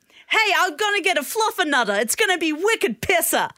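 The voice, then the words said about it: Put-on Staten Island / Jersey accent. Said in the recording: “I sound a bit like Pete Davidson... Did I go a bit too Staten Island?... A bit Jersey Shore, yeah.”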